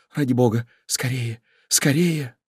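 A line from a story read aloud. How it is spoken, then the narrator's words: Hurried frightened whisper. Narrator (Russian): Девушка вся сжалась от ощущения инстинктивного страха и торопливо прошептала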